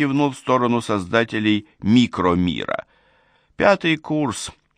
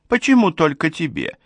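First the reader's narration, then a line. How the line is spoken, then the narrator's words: Giggle. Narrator (Russian): хихикнул Апсу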